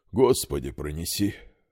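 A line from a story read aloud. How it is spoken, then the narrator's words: Breathless exhale, father-in-law. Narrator (Russian): выдохнул тесть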